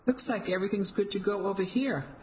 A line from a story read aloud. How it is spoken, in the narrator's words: I said, perhaps a little too brightly